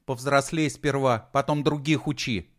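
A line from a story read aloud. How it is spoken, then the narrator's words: Angry retort. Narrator (Russian): сердито бросила Алена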